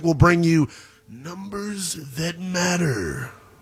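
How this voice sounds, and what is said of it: Big booming announcer voice. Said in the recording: “my big voice guy impersonation.”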